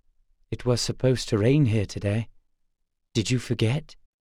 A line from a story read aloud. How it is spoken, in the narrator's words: said softly